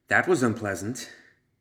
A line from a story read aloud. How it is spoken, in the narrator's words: she panted to herself